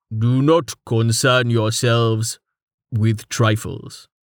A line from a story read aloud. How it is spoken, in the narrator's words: Tallheart said, his tone far from amused